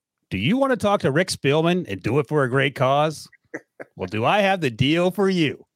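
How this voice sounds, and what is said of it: Infomercial announcer voice. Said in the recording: “in my infomercial voice.”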